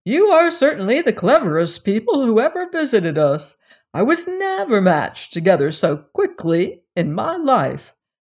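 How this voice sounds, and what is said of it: Cheerful character voice. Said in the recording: “speaking in a cheerful voice.”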